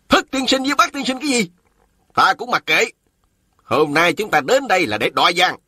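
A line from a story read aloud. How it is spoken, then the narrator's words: Unafraid shout. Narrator (Vietnamese): Thôi Quy Mẫn không hoảng sợ, mà y lại quát lên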